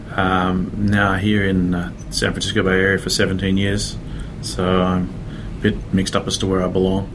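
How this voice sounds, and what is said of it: Australian accent. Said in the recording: “You can probably tell from the uh, from the accent that I'm originally from Australia.”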